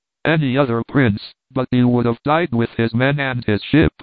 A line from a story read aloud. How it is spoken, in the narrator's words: he cried